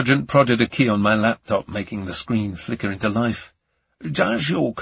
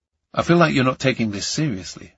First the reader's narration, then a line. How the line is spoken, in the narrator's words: I said